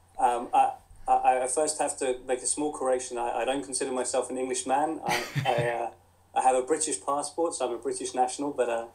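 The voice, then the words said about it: English accent. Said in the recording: “as you can tell from the accent, I was born and brought up in England, in Crawley in West Sussex”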